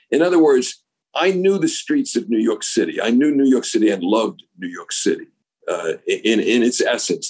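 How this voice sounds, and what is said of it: Strong Brooklyn accent. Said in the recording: “this accent, which is an unadorned, uncompromising Brooklyn accent.”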